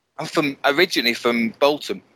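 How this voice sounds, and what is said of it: Northern English Bolton accent. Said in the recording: “you can probably tell from my accent, I'm not originally from Milton Keynes ... Born and bred in Bolton ... Up north”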